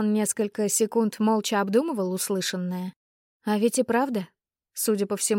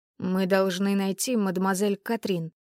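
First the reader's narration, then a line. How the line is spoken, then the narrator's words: Hoarse mutter, duke. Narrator (Russian): слегка севшим голосом пробормотал герцог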